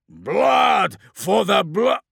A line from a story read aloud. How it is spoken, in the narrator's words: triumphant roar was cut short